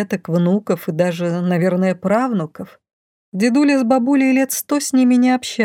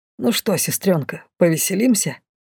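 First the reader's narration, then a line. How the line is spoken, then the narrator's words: Whispered. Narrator (Russian): шепнул Ир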